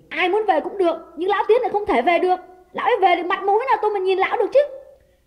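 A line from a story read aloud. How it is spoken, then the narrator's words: Angry shout. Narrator (Vietnamese): Đào quát lên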